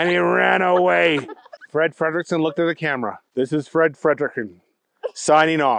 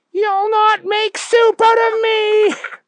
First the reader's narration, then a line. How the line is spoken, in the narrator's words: The man with cauliflower ears looked at him and yelled